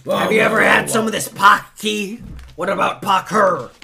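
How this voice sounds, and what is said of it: Imitates another person's voice. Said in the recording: “in the Alex Jones voice ... I've been doing the Alex Jones voice.”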